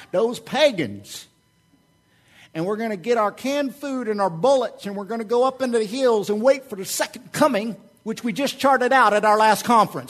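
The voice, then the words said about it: Put-on Southern US accent. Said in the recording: “I'm sorry, it's a southern accent. Again, I'm working on it.”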